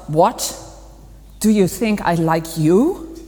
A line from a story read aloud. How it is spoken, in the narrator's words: Master Round Ant growled